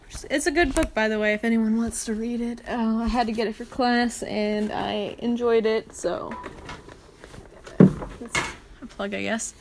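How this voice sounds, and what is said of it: American accent. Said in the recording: “I obviously have an American accent.”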